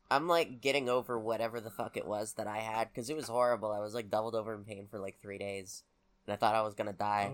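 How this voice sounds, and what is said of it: Congested, altered sick voice. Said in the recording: “my nose is super backed up ... my voice is a bit fucked up because it's been reshaped to deal with the disease”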